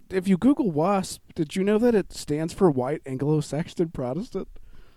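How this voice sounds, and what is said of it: Flat deadpan joke delivery. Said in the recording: “They don't respect a deadpan”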